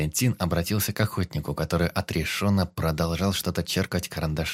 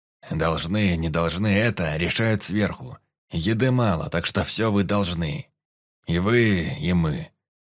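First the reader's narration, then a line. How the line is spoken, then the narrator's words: Grumbling. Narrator (Russian): пробурчал Петр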